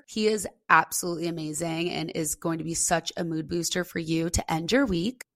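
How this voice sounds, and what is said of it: Raspy, partly lost voice. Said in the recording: “I did lose my voice. As you can tell, it's coming back... I lost my voice... excuse the raspy voice”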